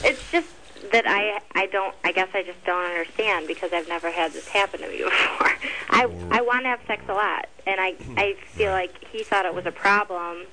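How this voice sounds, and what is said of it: Michigan accent. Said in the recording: “Did you get that Michigan accent? ... I heard non-Burbankian ... No, I heard the Michigan accent.”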